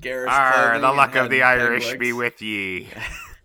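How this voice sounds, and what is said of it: Put-on pirate accent. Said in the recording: “pirate accent is close enough to Irish”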